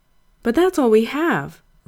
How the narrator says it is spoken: Ray said anxiously

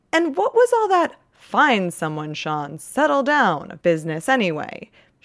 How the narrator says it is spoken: Sean to say semi-indignantly

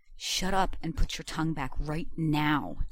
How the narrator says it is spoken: John hissed

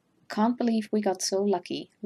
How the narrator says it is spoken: Laurent murmurs

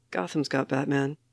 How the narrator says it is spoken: Jason mumbles back

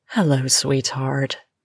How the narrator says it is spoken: she purrs

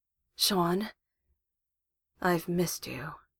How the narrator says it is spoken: Gilmore says, in that throaty voice that drives Vax mad

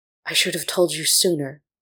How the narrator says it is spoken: Roon whispered, anguished and angry

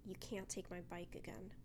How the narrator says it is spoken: he says, his voice dark and apathetic

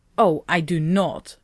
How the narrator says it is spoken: Rodney snapped, annoyed

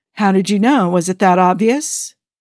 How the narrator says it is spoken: The president chuckled lightly

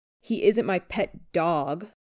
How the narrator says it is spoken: Peter snarls

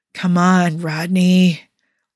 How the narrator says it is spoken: drawled John, letting a touch of wine creep in

